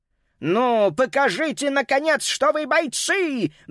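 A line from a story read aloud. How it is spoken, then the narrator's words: Roar. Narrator (Russian): взревел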